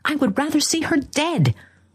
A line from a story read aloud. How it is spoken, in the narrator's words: cried the young man violently